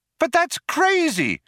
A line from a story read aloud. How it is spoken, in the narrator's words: cried Trillian